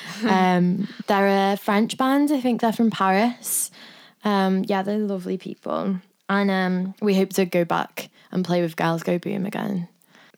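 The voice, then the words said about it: Strong, hard-to-understand accent. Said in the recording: “for anyone who can't understand my accent”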